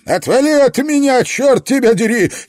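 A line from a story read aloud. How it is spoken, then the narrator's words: Frightened shout. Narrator (Russian): испуганно закричал Фредди Ло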